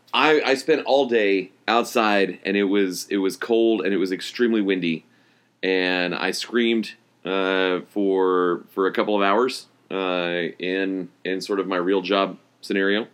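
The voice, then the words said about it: Hoarse, strained voice. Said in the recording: “my voice is a little bit shot ... hoarse from yelling”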